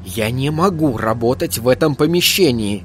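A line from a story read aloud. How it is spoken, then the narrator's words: Loud whisper. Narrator (Russian): громким шепотом произнес Айзек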